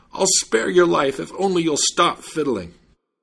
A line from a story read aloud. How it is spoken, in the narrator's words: the judge was out of breath and cried out